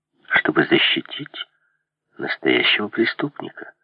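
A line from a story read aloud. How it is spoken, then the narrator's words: Calm reply. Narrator (Russian): спокойно ответил Дигби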